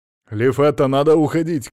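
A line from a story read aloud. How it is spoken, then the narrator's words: Shouted. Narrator (Russian): крикнул Пирсон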